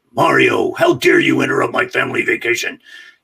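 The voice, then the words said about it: Bowser character voice. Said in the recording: “I did my best impersonation of Scott Burns, who was the actor who was Bowser just before me”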